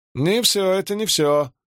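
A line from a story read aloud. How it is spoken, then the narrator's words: Sudden shout. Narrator (Russian): закричал вдруг Петерсон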